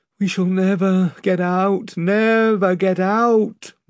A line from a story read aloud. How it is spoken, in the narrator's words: moaned the rowers